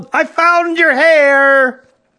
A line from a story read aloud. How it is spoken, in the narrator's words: she yelled